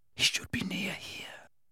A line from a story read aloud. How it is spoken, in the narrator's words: whispered Harry